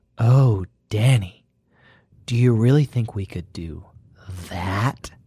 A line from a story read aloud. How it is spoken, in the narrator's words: Her voice was very breathy